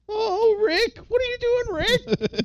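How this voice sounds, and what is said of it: Impression of Morty. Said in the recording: “Your Rick and Morty impression... That's my Morty.”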